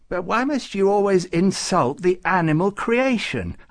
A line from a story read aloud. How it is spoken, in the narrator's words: asked Farouk indignantly